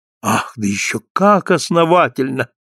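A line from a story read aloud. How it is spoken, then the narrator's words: Sincere exclamation, blind woman. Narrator (Russian): воскликнула слепая с такой искренностью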